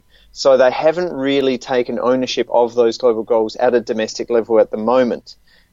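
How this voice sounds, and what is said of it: Australian accent. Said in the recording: “in the case of Australia, as you can tell from my accent”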